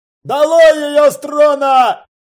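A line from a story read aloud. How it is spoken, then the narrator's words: Shouting elf. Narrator (Russian): крикнул другой эльф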